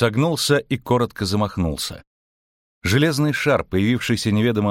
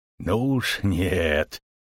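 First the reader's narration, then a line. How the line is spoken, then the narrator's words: Through gritted teeth. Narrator (Russian): процедил Богольд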